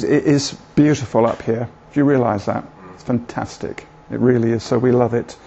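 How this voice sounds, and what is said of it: Bristol English accent. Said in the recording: “my accent, Bristol”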